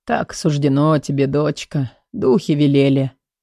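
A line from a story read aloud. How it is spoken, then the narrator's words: Hoarse mutter. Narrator (Russian): Отец пробормотал сипло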